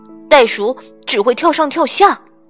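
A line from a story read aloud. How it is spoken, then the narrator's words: Cowering shout. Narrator (Chinese): 乔伊缩着脑袋喊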